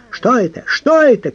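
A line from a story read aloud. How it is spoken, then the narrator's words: Shouting. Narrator (Russian): кричал он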